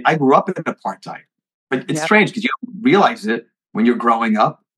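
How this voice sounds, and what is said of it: New Jersey accent with South African tinge. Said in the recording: “That's the accent. We love that because we're both Jersey girls. ... But it's a different accent. ... he doesn't sound totally New York, totally New Jersey. There's something there, but it must be the sprinkle of South African in that.”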